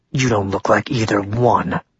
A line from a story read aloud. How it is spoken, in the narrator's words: Ren growled